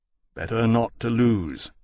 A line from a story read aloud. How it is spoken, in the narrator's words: Lawrence said grimly